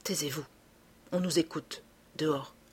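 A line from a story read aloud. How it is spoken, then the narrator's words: Low voice. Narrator (French): Filleul et, à voix basse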